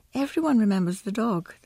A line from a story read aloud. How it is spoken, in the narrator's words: the policewoman sighed